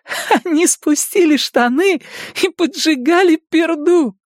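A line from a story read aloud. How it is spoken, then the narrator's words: Forced out through laughter. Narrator (Russian): Сквозь смех Беверли выдавливает из себя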